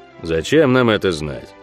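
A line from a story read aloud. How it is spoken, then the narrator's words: Gloomy pronouncement. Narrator (Russian): мрачно изрек Ок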